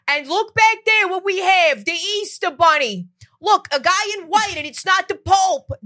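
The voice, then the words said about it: Strong New York accent impression. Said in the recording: “He has the strongest New York accent. He goes.”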